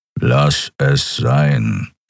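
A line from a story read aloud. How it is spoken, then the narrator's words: Growled. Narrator (German): knurrte er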